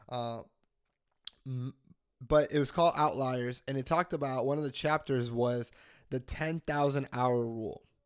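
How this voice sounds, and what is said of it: Voice sounds sick, a little different. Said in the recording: “I am actually, guys, sick. This is why my voice sounds a little different today.”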